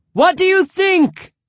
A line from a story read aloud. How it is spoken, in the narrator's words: shouted